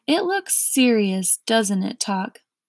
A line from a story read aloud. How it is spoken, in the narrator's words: said Milo very sadly